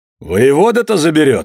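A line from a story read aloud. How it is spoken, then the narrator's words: Loud. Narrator (Russian): сказал громко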